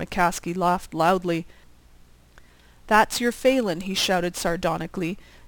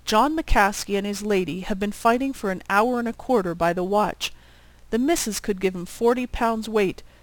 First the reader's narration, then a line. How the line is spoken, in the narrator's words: he exclaimed